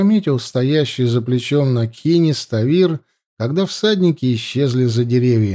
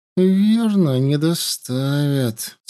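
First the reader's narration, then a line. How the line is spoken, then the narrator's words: Through gritted teeth. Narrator (Russian): сквозь зубы ответила Марга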